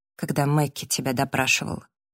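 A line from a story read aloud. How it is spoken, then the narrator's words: Quiet interjection. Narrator (Russian): тихо вставила Эбби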